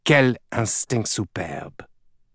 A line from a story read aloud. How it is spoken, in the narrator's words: Dominique muttered in French to himself